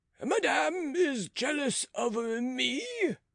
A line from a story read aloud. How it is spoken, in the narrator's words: cried the cardinal